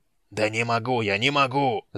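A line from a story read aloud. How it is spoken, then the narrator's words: Yelling. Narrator (Russian): заорал хан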